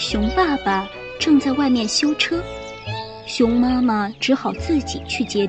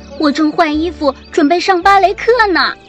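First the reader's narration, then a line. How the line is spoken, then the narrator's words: Shouting from upstairs. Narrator (Chinese): 小熊妹妹从楼上喊道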